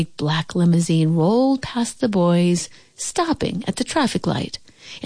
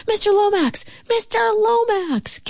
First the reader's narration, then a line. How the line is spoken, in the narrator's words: Calvin called out